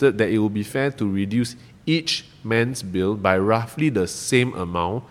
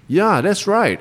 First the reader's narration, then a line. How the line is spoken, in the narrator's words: exclaimed the 6th man